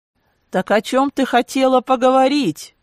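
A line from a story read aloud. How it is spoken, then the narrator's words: Shout. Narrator (Russian): крикнул Кларе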